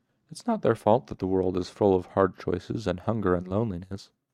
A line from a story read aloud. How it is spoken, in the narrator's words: she said